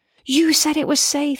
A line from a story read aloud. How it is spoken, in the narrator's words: she yells